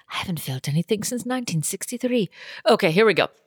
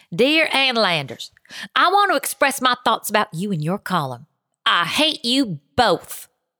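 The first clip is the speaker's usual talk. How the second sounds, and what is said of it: Put-on Southern American accent. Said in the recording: “I got to read this with a Southern accent”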